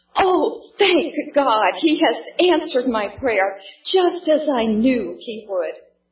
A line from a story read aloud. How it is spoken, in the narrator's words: exclaimed